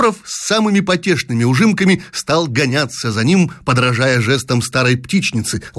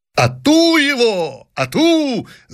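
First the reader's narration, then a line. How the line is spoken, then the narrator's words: Sovereign shouting. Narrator (Russian): закричал … государь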